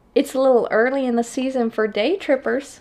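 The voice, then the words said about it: Put-on Southern accent. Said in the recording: “Her thick accent sounded strange. Oh, God, I don't know what the accent is ... all I can do is Southern, so that's what we're getting.”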